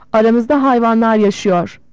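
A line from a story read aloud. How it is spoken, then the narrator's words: Shouting. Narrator (Turkish): diye bağırdı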